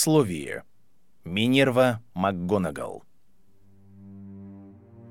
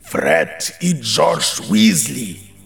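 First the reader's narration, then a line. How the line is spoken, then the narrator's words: Thundering voice. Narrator (Russian): прогремел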